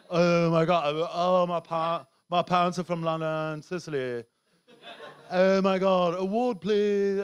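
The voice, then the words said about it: Mock English accent, Hollywood-actor style. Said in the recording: “Hollywood actors ... do an English accent ... Could do an English accent”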